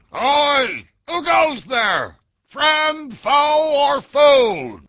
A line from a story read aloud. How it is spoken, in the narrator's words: Blowing snowflakes from his lips, the burly otter shouted